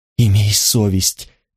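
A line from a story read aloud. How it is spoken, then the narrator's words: Moaning plea. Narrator (Russian): простонала она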